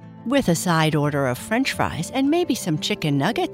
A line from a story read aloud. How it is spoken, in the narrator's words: Carl laughed